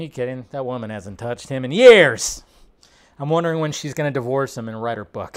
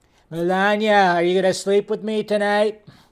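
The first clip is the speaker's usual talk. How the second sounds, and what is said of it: Imitates another person's voice. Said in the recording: “my Trump impression ... You just got to push the lips out ... just do his mannerisms”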